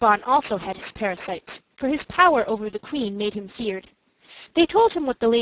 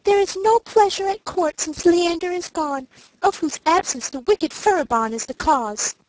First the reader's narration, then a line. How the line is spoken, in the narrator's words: cried they